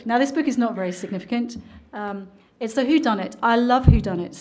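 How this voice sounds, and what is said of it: Speaks with a noticeable accent. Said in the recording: “so you can get used to the accent again”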